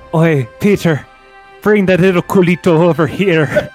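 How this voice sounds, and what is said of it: Put-on Irish accent. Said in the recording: “Can you say that in an Irish accent?”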